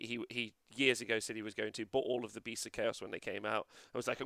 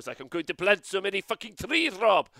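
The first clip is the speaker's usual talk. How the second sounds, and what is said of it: Put-on Swedish accent. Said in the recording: “That's my Swedish impression.”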